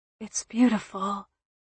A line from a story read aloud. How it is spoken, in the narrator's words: she whispered, her hoarseness